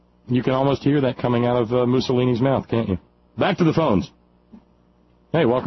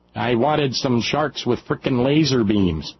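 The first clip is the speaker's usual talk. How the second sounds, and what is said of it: Dr. Evil impression. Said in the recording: “Dr. Evil's accent sounds a lot like Sarah Palin, too”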